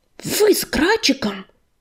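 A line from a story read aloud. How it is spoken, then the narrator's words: Whisper. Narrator (Russian): шептал он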